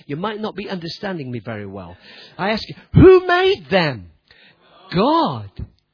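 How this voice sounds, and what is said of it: Slight English accent. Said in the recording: “I'm English, you see... I've got a bit of an English accent”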